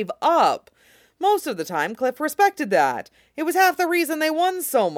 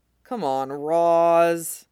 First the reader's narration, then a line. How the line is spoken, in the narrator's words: practically whined, like a child